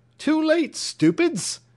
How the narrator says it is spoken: cried the young captain with a regular roar

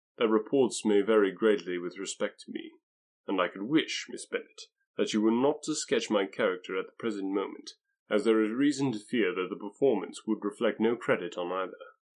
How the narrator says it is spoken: answered he gravely

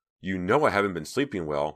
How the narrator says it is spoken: Myra cried, feeling herself start to lose control and unable to do anything about it

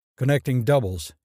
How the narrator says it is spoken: said curtly

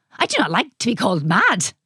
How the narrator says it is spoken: exclaimed the mad scientist

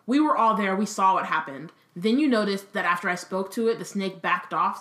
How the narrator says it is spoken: said Harry

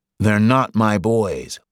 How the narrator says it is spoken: Licht groaned

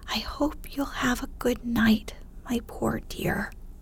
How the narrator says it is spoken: whispering tenderly

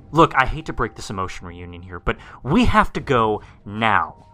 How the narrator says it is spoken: I yelled out

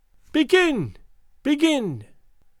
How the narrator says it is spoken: cried out Gagool in her thin, piercing voice

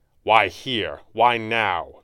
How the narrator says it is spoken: Fenwick snapped

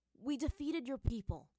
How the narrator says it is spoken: Aang said to Jet, his voice hard

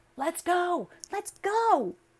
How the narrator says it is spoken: cried the girl

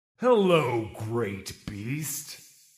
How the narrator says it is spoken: rumbled

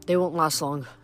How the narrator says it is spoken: I said

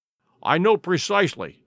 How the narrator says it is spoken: said Dr

